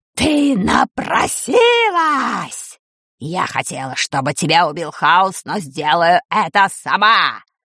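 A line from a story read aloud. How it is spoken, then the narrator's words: Roaring. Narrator (Russian): Взревела Чума Дель Торт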